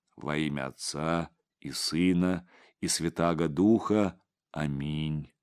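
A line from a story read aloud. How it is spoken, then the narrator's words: Chanting, priest. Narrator (Russian): нараспев произнес отец Егорий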